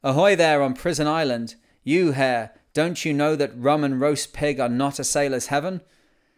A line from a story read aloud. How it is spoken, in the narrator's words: one might have heard the captain's roar across to Java